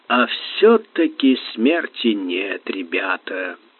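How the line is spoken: Smiling drawl. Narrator (Russian): улыбаясь широко и бессмысленно, протянул

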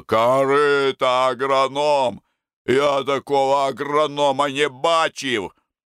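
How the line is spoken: Envious growl. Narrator (Russian): Федоренко бледнел от зависти и рычал

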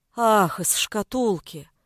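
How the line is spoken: Sighed. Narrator (Russian): вздохнул Сашка

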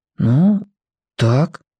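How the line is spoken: Quiet. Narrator (Russian): тихо сказал он

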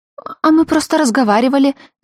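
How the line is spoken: Squeak. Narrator (Russian): зачем-то пискнула Гала

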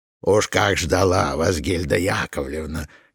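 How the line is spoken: Low smoky voice. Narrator (Russian): говорила она своим низким, прокуренным голосом

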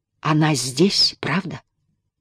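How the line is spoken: Whispered question. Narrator (Russian): шепотом спросил он

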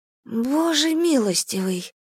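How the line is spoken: Mutter. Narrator (Russian): пробормотала Джада

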